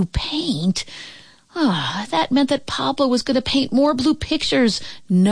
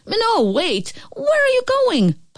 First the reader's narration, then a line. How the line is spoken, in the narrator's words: cried out